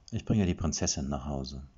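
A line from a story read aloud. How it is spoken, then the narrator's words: Flat toneless voice. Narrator (German): sagte Erik tonlos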